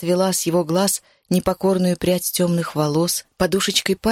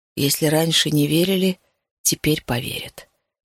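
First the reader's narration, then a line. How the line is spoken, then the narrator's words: Quiet. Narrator (Russian): тихо сказал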